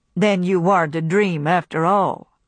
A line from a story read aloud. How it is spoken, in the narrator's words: he said, in his flat, toneless voice